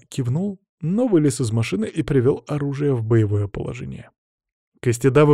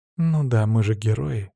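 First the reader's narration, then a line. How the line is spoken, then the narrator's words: Heavy sigh. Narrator (Russian): тяжело вздохнула Мира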